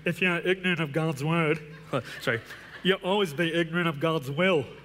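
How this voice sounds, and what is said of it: Imitates another person's voice. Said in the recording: “Billy Graham, if you want to hear Billy Graham. ... a good impression.”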